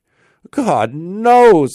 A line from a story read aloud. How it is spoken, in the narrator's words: exclaimed he, at his wit's end